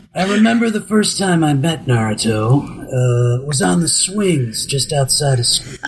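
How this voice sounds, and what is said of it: Shikamaru character voice. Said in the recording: “the English voice actor for Shikamaru ... I'm so happy you're doing the voice ... I could do the whole thing in the voice.”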